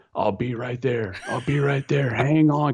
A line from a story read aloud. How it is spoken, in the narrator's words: he's yelling